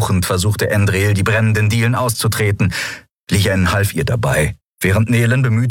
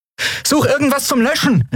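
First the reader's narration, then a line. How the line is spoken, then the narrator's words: Called out. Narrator (German): rief Andriel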